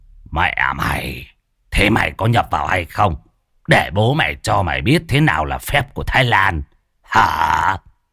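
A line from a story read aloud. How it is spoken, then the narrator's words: Menacing growl. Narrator (Vietnamese): Môn Phọt gằn giọng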